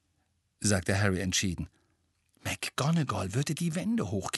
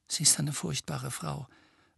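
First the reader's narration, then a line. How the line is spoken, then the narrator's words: Low voice. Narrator (German): sagte Hermine mit leiser Stimme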